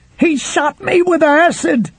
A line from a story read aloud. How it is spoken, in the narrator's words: the man on the floor screamed